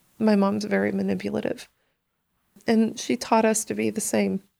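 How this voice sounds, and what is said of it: Emotional voice. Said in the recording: “I'm sorry for getting emotional.”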